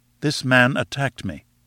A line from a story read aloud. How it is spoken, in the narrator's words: said I